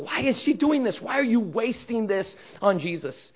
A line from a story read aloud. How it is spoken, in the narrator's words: whispering to each other